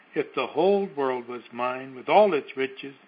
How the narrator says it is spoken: answered the other

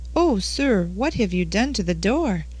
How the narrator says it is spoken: cried the innkeeper in an awed voice

